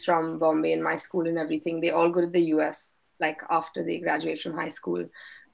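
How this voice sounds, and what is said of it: Indian accent from Bombay. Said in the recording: “my accent is so different from everyone else's ... obviously where I'm from, everyone sounds like me”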